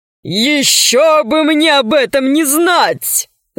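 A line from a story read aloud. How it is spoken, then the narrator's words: Laughing. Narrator (Russian): засмеялся Водичка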